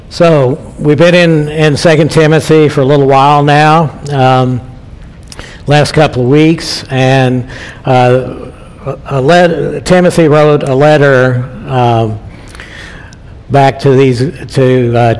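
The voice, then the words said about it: Hoarse voice. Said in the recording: “I'm a little hoarse this morning, so I may be having to take a water break every once in a while.”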